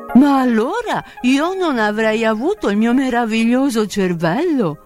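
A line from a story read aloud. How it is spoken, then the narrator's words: Scarecrow's exclamation. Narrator (Italian): esclamò lo spaventapasseri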